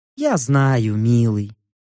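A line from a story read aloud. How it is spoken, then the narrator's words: Sighing. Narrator (Russian): вздохнула Копула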